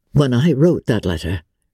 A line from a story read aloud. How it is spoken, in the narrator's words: replied Darcy